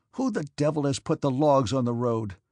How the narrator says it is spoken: snarled he

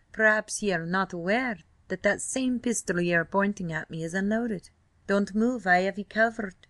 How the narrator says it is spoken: he said in a rich brogue

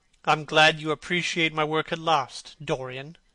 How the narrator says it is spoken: said Hallward coldly, when he had recovered from his surprise

